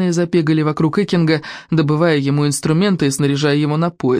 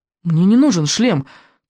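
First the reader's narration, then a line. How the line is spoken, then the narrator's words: Hurried interruption. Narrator (Russian): торопливо перебил Икинг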